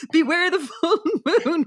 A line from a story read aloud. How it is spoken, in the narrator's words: Renee shouted